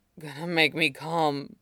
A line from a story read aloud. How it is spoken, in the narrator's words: came the mutter, thick and a little angry